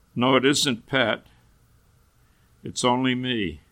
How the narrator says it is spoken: in a sorrowful voice

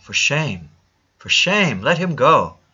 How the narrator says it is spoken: the gentleman in the shop cried out

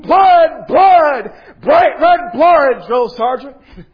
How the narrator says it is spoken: hundreds of voices, we would yell out in unison

